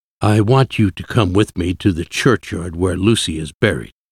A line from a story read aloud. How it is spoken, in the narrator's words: Van Helsing said gently